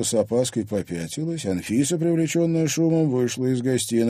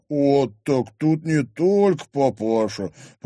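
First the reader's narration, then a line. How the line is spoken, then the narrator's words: Drawling. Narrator (Russian): протянул Микель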